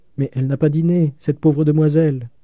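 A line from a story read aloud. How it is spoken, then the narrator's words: Pitiful tone. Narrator (French): dit Poiret d'un ton piteux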